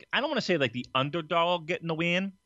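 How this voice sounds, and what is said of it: Sudden put-on Southern accent. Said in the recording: “I talked in a southern accent all of a sudden”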